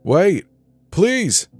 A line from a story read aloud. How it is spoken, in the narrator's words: Danny shouted, now conscious